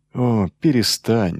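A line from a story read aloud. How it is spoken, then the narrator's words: Sighing. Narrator (Russian): вздохнул Грегор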